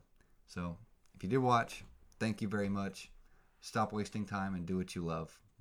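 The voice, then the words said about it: Flat, monotone tired voice. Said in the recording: “Sorry for the monotone again. ... it's 1 in the morning. I got work tomorrow. I got to go to bed.”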